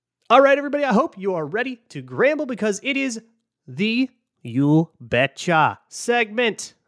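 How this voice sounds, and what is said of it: Thick put-on accent. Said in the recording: “the accent will only get thicker until morale improves”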